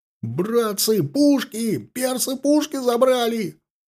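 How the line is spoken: Wild frantic yelling. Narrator (Russian): Заорал, как оглашенный невысокий егерь

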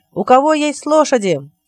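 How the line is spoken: Shouting to a crowd. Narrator (Russian): крикнул Робин, обращаясь к толпе

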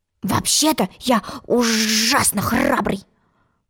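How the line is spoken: Whisper. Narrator (Russian): шепнул ей отец

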